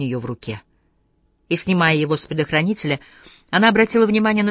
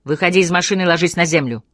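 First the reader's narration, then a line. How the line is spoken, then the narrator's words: Furious roar. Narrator (Russian): Яростно проревела Моника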